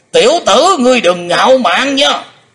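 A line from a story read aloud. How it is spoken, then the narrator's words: Roaring. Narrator (Vietnamese): Âm Ma giáo chủ đã gầm rống lên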